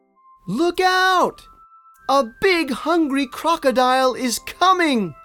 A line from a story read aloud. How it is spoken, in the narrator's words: yelled the turtle suddenly